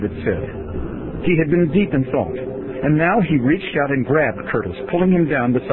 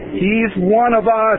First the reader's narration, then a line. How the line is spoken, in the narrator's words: I shouted